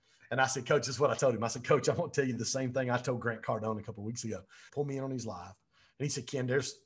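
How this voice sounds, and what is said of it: Usual voice. Nothing is said of it.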